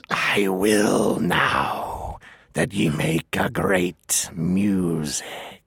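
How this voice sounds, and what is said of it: Performs a monstrous character voice. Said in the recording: “you did the Ungoliant voice”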